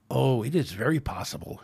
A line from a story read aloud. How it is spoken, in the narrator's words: hissed the Orion